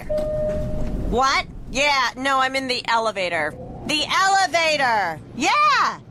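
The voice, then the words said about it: Loud shouting phone-call voice. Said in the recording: “this is my impression of a person having a phone conversation in the elevator”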